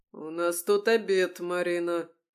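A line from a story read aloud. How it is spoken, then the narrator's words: Growling. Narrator (Russian): прорычал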